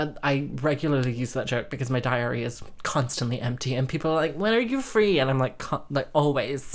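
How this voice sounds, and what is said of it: Usual voice. Nothing is said of it.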